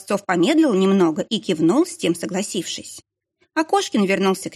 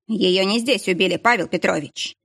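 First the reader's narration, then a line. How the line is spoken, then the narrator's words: Dry but sharp. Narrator (Russian): сухо, но резко заявил Кошкин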